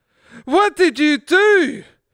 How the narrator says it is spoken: the gypsy woman cried

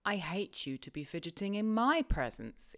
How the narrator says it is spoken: exclaimed the young lady imperiously

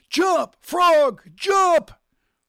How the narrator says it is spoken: he yelled

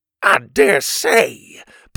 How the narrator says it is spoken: Pa exclaimed

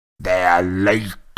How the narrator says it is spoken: he snarled at Harry

